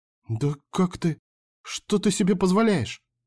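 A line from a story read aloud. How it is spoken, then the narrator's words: Quiet exclamation. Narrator (Russian): негромко воскликнула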